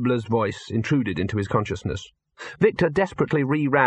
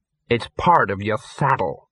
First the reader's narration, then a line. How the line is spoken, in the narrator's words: Ginger hissed